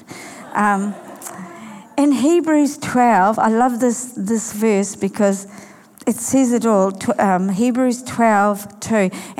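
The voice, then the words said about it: Funny, sore-throated voice. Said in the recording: “Excuse my funny voice, I've had a, a sore throat”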